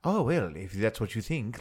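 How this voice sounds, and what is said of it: Proper aristocratic accent, Tarkin impression. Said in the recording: “for being so aristocratic and very like ... like with that proper accent”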